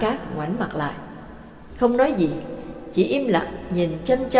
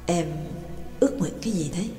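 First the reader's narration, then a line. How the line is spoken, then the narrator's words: Soft question. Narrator (Vietnamese): Trương Lập mới khẽ hỏi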